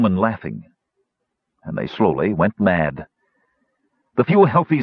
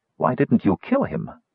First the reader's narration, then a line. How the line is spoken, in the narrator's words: Kitiara said sharply